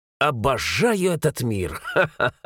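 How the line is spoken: Laughing. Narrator (Russian): Рассмеялся я

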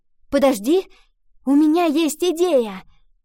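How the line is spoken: Sudden exclamation. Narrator (Russian): Вдруг воскликнула Ива

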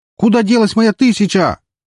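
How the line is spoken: Shouting. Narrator (Russian): закричал Эмилио

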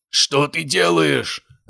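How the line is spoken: Giant roaring angrily. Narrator (Russian): заорал гигант

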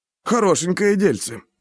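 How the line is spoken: Cheerful hoarse rasp. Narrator (Russian): бодро прохрипел гриф

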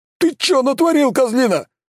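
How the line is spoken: Angry yell. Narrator (Russian): гневно заорал таксист

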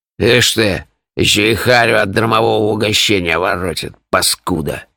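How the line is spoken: Angry mutter. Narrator (Russian): Злобно буркнул Пурех

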